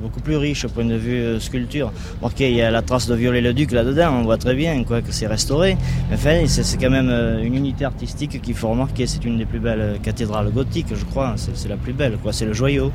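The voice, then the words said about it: Southern French regional accent. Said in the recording (French): “à votre accent? ... nous sommes du Midi”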